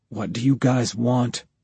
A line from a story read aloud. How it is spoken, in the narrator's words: Stone whispered